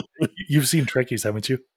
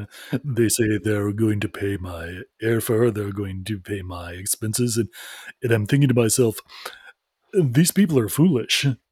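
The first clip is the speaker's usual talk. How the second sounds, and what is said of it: Imitates another person's voice. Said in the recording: “your George Takei impression”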